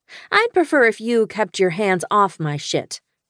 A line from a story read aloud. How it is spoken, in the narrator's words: I said haughtily